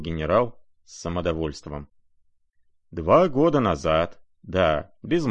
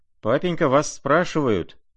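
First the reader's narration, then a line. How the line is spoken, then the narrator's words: Shout. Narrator (Russian): крикнул Коля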